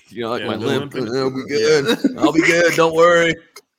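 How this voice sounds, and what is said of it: Imitates another person's voice. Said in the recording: “that imitation ... That was fantastic.”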